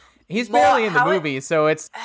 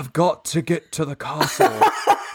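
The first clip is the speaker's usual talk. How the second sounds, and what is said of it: Keanu Reeves's bad British accent. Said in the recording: “Keanu Reeves. So bad in it. ... Because he tries to do a British accent. ... It's hilarious.”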